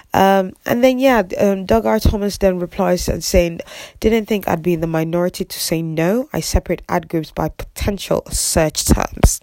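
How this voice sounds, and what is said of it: Congested, sniffly voice from a cold. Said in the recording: “sorry for the sniffles there. I've got a bit of a cold”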